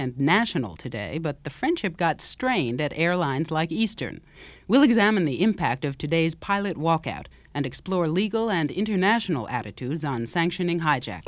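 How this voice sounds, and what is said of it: Careful, formal newsreader voice. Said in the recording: “my voice is younger, but it's not very different... me working on my accent... being really careful with that A to sort of flatten out rather than to sound New York-y... much more formal”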